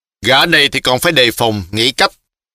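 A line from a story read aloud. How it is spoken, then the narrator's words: Shouting. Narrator (Vietnamese): y lại quát một tiếng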